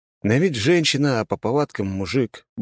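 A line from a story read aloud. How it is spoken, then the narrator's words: Gruff mutter. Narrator (Russian): буркнул я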